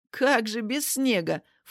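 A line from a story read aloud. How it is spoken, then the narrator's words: Snorting woman. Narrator (Russian): фыркнула тетя Таня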